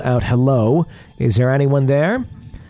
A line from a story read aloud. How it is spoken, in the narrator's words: My friend called out